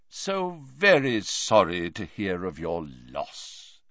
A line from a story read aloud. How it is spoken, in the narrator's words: he said in a deep, grave voice